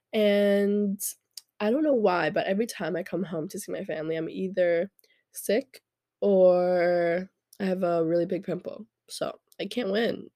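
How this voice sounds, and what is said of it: Congested, stuffy nasal voice. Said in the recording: “my voice is like this, it's because I'm a little congested”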